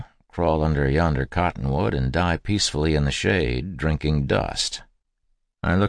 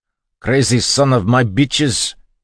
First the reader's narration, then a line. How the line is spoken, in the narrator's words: he was screaming